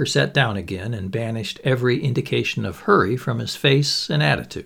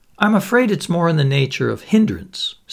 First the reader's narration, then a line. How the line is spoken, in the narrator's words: said Sir Julian with a short laugh